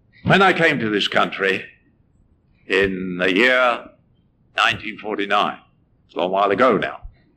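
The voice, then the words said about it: English accent. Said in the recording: “I came from England, as you can probably tell. ... I can't help my accent.”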